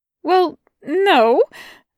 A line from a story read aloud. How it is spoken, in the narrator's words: Aziraphale stuttered